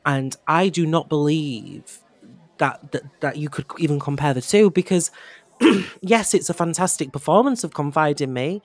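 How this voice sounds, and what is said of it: Hoarse, strained voice. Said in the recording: “Sorry, I'm losing my voice... you must be catching my lurgy”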